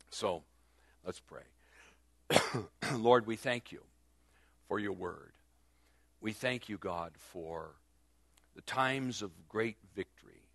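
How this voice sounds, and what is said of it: Hoarse, failing voice. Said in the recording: “for some reason I'm losing my voice.”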